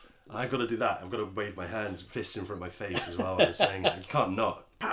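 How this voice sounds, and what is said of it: Usual voice. Nothing is said of it.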